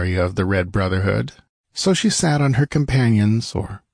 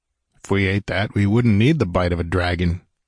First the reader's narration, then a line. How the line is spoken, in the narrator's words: he grunted